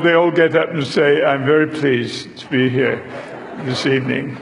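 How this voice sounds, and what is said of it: British accent. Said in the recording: “my accent ... I appreciate Gary telling you I had an accent ... this is British humor”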